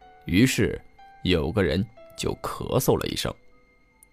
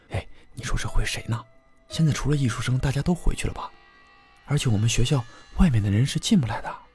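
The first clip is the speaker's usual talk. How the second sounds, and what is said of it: Quiet muttering whisper. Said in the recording (Chinese): “小声嘀咕”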